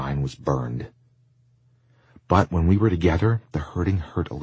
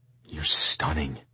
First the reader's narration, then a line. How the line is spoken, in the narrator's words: I whispered